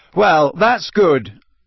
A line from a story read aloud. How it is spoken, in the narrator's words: said Harry loudly, his temper getting the better of him